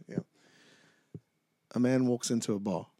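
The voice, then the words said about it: Bad put-on English Cockney accent. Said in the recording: “Cockney... American guy doing an English accent... Terrible”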